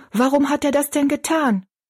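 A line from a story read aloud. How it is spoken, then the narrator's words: Calling out. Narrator (German): rief Betty Ann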